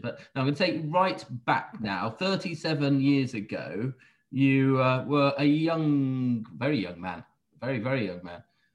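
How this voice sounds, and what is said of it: Radio presenter style voice. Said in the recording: “I'm doing my best radio presenter impression”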